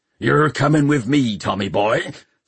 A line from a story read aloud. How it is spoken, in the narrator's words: snarled Chrysler Peavy